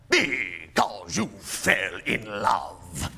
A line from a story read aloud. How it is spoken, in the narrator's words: growled Scrooge, as if that were the only thing in the world more ridiculous than a Merry Christmas